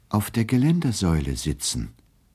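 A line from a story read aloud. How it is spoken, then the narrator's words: Gentle reply. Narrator (German): erwiderte er sanft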